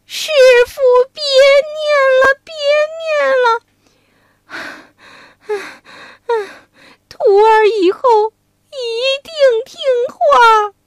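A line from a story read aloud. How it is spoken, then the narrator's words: Pleading. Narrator (Chinese): 连连哀求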